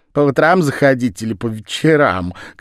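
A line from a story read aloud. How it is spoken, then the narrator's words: Flirtatious laughter. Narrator (Russian): кокетливо смеялась Лиззи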